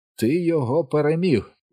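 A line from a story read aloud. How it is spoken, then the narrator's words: Exclaiming. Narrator (Ukrainian): вигукнув Річі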